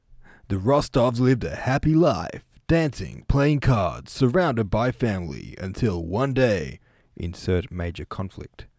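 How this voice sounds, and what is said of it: Movie trailer narrator voice. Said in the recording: “how do you like my trailer voice? Maybe I should do voiceovers.”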